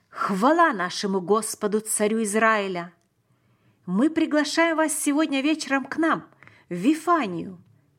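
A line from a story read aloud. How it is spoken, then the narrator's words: Loud exclamation. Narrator (Russian): Он громко воскликнул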